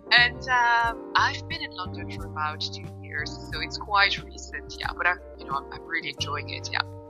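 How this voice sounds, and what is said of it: Non-UK accent with Irish tinge. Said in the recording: “I'm definitely not from the UK ... the Irish accent”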